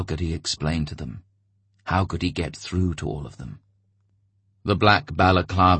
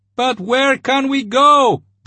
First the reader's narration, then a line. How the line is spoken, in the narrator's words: They shouted to him